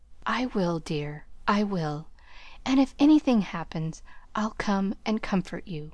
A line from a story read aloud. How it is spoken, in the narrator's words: whispered Laurie